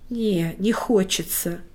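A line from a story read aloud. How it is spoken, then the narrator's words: Breathed out. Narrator (Russian): выдохнул Лёша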